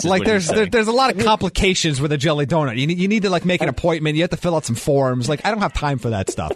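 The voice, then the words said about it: Strong New York accent. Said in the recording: “when ... gets heated, that's when the New York accent comes out the most ... I have absolutely noticed that.”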